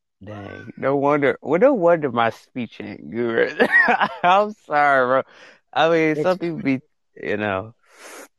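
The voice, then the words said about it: Country accent. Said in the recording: “some people say I got a country accent”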